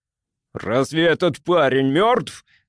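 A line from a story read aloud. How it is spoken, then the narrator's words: Shocked yell. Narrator (Russian): завопил он, заметив вздрагивающие губы и блестящие неподвижные глаза, лежащего на носилках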